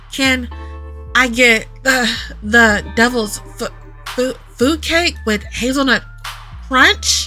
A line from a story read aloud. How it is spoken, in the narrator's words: I stammer